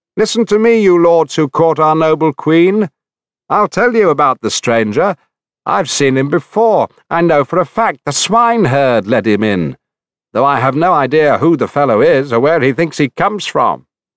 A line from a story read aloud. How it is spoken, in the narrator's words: the goatherd Melanthea shouted out in their midst